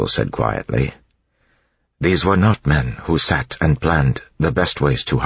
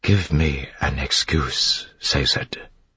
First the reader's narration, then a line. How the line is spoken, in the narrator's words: she whispered